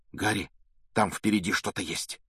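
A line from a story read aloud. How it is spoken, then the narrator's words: Sudden frightened whisper. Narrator (Russian): вдруг испуганным шепотом произнес Рон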